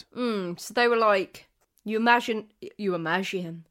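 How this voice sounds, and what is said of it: Voice slips into French-sounding accent. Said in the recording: “Why did my voice go so? Is this French? I'm going to go with French.”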